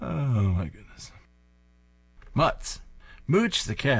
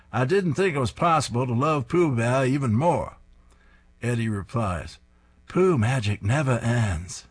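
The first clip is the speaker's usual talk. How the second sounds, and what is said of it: Poor put-on Maine accent. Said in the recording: “my terrible attempt at a Maine accent”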